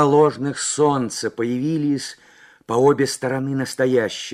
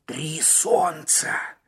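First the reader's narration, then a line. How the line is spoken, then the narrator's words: Hoarse mutter. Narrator (Russian): хрипло пробормотал Маккен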